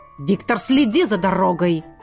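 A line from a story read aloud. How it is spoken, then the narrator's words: Barked order. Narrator (Russian): рявкнул на водителя кукловод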